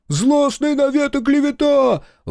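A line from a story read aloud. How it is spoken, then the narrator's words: Shouting man. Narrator (Russian): выкрикнул мужик за спиной Прокопа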